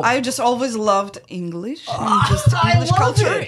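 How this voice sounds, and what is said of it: Russian accent. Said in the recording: “do you hear that accent ... I can't lose the accent ... I am originally from Russia”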